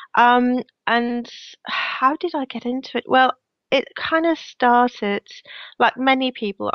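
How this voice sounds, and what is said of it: Slight Danish accent in English. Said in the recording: “I'm originally from Denmark, hence my slightly weird accent.”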